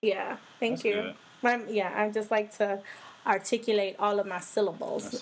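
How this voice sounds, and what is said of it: Voice altered by a cold. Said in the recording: “I had a cold. So my voice isn't what it normally is.”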